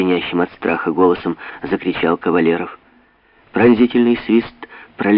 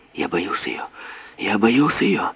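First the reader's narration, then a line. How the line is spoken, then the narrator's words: Breathless whisper. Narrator (Russian): задыхающийся шепот Ивана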